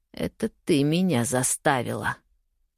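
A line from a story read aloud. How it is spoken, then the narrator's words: Growl. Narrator (Russian): прорычал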